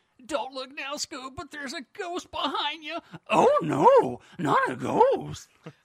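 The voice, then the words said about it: Shaggy cartoon character voice impression. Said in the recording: “I'm going to give you my best Shaggy ... The Scoob was better ... that was amazing ... impersonations of my dad or Shaggy. That was really, really good.”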